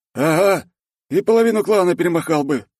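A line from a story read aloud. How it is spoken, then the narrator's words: Snort. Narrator (Russian): хмыкнул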